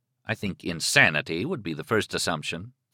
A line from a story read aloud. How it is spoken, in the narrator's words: Thad said dryly